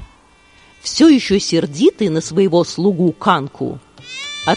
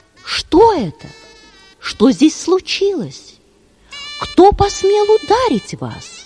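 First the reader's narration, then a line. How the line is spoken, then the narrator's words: Alarmed question. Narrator (Russian): тот, увидев, что лицо Юдхишхиры в крови, спросил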